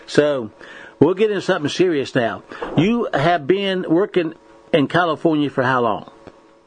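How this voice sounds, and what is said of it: Hillbilly accent. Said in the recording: “I got stuck with a hillbilly. But anyway, with a hillbilly accent.”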